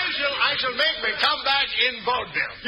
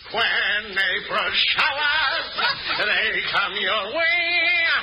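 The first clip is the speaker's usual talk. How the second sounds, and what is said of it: Croaky, off-key singing. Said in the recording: “my voice is as good as Al Jolson ... What do my pipes sound like? ... You got a loose washer.”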